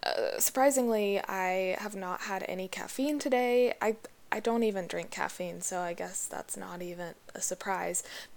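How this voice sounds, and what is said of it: Stressed, scattered-sounding voice. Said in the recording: “if you can't tell from my voice, I'm just a little all over the place, stressed out right now”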